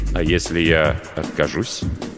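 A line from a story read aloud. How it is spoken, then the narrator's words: Quiet question. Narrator (Russian): тихо спросил Маркус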